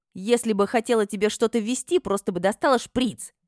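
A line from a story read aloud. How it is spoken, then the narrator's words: Barked retort. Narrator (Russian): рявкнула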